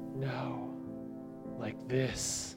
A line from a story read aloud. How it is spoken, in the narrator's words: he whispered